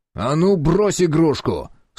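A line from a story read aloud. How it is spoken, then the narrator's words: Stern bark. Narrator (Russian): сурово рявкнул я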